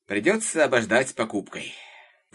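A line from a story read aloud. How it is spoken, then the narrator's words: Sighing father. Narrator (Russian): вздохнул папа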